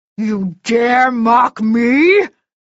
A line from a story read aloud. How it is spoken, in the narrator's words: the Fomor snarled